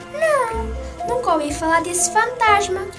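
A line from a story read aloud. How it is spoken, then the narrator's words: Plain reply. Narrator (Portuguese): respondeu a Inês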